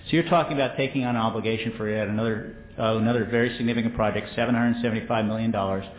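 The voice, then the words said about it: Somewhat Yankee American accent. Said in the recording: “you hear my somewhat Yankee accent”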